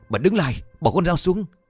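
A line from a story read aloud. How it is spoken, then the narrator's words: Startled loud shout. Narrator (Vietnamese): Chú Bảy thấy vậy giật mình hét lớn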